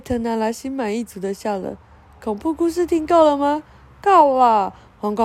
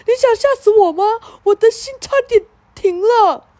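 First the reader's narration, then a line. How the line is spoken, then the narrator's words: Panting, loud shout. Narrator (Chinese): 他传个不停，大声喊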